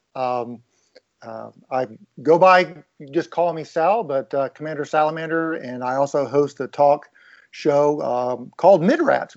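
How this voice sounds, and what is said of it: Noticeable non-local accent. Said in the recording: “I guess I'm the guy with the funny accent.”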